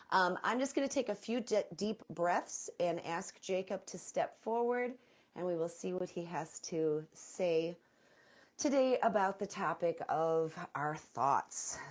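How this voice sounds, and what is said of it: Nasal, congested voice. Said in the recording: “I do apologize for my voice. I feel very nasally today with my cold.”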